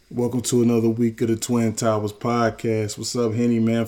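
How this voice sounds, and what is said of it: Sick, rough-sounding voice. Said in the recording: “Feeling a little under the weather. If y'all think my voice is sounding kind of crazy”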